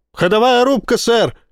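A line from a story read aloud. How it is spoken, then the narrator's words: Loudspeaker barking. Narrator (Russian): гаркнул динамик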